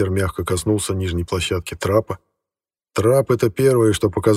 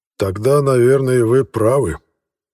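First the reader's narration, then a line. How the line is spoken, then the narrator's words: Sighing governor. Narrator (Russian): вздохнул наместник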